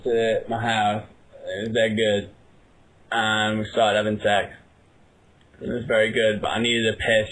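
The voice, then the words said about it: Lazy British Manchester accent. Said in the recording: “Is this a real British accent ... You just sound like you're from Manchester ... You just talk like you don't even want to be ... It's a lazy British accent”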